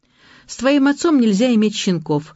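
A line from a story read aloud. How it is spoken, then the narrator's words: Explaining. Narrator (Russian): объяснил я Масе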